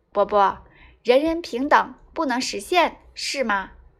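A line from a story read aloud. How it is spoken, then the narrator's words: Plain. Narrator (Chinese): 扁鹊答道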